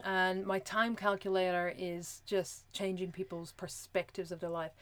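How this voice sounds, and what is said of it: Speaks with a noticeable accent. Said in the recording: “which is too hard because of my accent”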